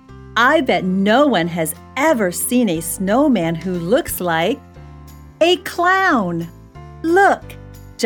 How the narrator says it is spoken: Johnny shouted

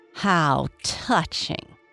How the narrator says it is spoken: Julian hissed at them

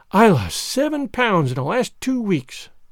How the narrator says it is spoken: sighed Jane

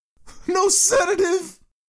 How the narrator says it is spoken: screamed Sale

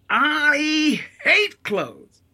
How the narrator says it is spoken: Anna bellows

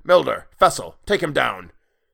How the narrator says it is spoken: The brethren grunted

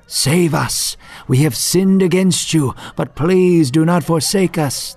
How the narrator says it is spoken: Israel, as they had many times before, cried out to God

